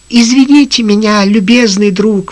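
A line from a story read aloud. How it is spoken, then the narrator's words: Exclamation. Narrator (Russian): воскликнул он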